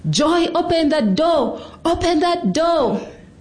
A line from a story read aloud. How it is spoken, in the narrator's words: his brothers joined in, screaming